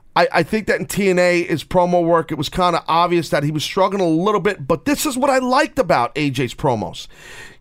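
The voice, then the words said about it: Brooklyn accent. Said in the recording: “my Brooklynese accent”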